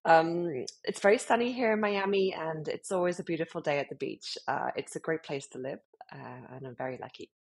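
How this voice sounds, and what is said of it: British accent. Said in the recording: “as you can hear from my accent, I'm from the UK, um, British born and bred”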